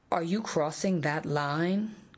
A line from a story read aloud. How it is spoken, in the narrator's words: queried Smith in an ominously gentle voice